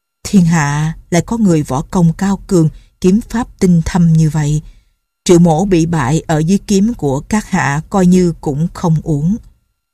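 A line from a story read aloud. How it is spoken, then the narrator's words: Sighing old man. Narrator (Vietnamese): Lão thở dài nói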